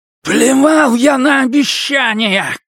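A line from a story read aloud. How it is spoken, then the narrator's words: Shout. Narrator (Russian): крикнул Дикки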